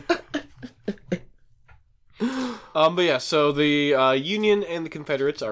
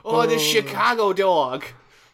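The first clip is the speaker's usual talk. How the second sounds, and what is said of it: Bad put-on accent. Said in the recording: “That was a bad accent.”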